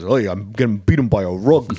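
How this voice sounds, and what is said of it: Rodney Dangerfield impression. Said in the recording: “turns into Rodney Dangerfield and goes ... Your impression is even better.”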